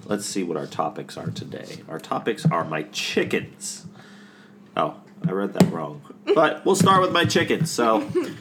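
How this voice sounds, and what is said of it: Congested, under-the-weather voice. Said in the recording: “I'm a little bit under the weather today, if you can hear from my voice ... nostrils are giving up a problem”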